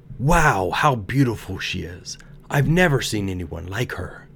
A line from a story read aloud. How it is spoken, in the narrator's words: People began to exclaim